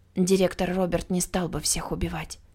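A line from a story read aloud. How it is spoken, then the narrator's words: Quiet. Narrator (Russian): тихо сказала Ула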